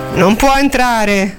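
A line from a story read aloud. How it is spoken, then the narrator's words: Vague hesitant tone. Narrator (Italian): disse in tono vago, indeciso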